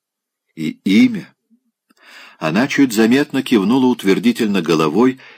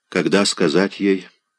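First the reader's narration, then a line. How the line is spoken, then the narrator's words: Quiet question. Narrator (Russian): спросил он тихо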